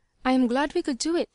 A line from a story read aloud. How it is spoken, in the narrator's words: she said simply